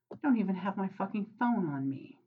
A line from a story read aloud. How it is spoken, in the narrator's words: Crowley groaned